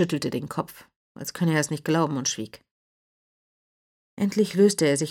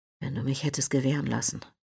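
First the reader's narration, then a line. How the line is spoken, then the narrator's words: Quiet. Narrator (German): sprach er leise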